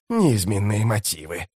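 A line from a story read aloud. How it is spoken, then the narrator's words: Hissed. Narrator (Russian): прошипел Искорал прыщ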